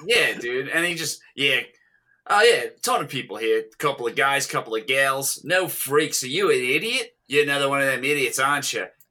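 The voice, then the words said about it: Convincing put-on Australian accent. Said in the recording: “you guys are killing with the Australian accent”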